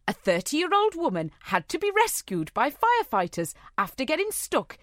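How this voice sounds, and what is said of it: Attempted Welsh accent sliding into Geordie. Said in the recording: “read this in a Welsh accent ... I guarantee I can't. ... I've gone Geordie. ... Sort of.”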